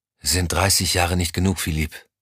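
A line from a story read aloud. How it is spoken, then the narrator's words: Quiet question. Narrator (German): fragte leise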